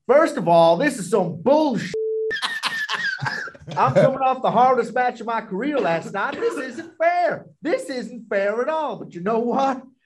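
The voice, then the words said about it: Put-on accent imitating Cameron Grimes. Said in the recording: “a promo that Trevor Lee, Cameron Grimes ... cut ... I'm going to have to do an accent to make it funny”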